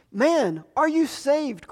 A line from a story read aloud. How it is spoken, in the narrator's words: cried Harper